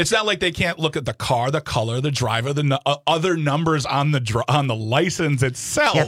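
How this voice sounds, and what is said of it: Usual voice. Nothing is said of it.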